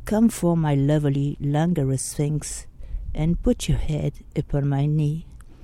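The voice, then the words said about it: French accent. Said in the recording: “my French accent ... I'm sorry if it's not very good”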